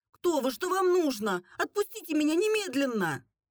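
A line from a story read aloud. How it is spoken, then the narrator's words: Exclaiming. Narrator (Russian): воскликнула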